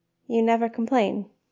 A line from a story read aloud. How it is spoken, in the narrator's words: Eska said finally